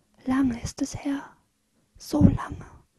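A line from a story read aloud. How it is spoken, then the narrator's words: Whispered. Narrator (German): flüstert sie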